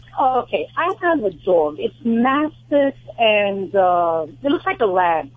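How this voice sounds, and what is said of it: New York accent. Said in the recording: “I hear it in your accent. ... My accent's from New York.”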